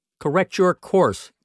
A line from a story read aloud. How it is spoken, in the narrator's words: commanded the voice sharply